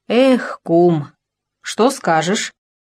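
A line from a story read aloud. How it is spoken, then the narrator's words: Sighing, sorrowful. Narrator (Russian): Парамоныч, вздохнув, сказал горестно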